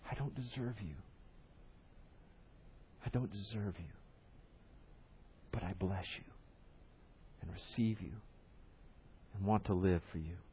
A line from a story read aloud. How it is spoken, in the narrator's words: we even whisper as we are receiving Christ